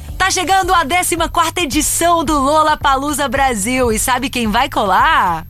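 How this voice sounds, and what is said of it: Announcer voice. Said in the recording (Portuguese): “fazendo voz de locutora ... fazer voz de locutor comigo também”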